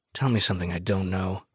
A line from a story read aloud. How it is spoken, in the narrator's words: I mutter